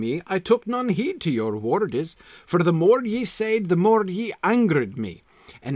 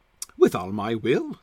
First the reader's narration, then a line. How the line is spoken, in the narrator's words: said he